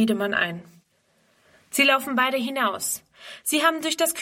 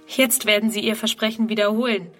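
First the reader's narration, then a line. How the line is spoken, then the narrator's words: Plain. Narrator (German): sagt sie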